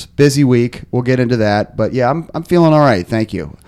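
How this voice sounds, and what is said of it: Slightly raspy, hoarse voice. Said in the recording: “My voice is a little bit raspy. ... Feeling a little hoarse? ... A little hoarse.”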